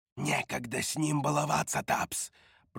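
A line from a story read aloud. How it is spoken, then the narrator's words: Whisper. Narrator (Russian): прошептала Роша костяное лицо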